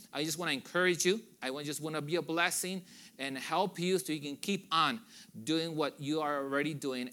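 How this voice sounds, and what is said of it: Speaks with a noticeable accent. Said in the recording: “Hopefully you can understand me. I know I have an accent”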